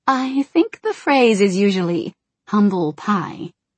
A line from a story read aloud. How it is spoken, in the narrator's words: he chuckled